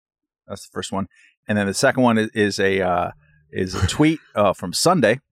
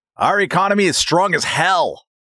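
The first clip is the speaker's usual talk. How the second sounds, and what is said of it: Imitates another person's voice. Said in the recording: “That's a good impersonation, too.”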